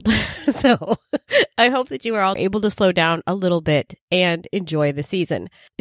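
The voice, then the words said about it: Congested voice from a cold. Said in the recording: “as you can probably tell from my voice, I've got a cold.”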